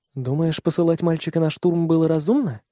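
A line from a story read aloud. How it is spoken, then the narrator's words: Quiet question. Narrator (Russian): тихо спрашивает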